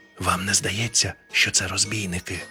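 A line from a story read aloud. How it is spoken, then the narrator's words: Whispered question, ghost. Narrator (Ukrainian): пошепки спитав привид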